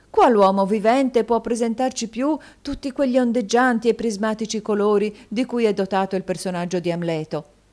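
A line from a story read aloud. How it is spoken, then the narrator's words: Exclaiming. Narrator (Italian): esclamò la signora Cardle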